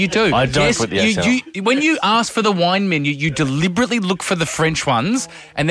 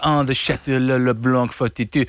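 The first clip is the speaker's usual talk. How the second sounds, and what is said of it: Mock French accent ordering wine. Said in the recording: “ordering French wine at restaurants with the accent”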